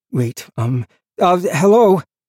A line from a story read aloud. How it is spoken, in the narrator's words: He stammered, starting over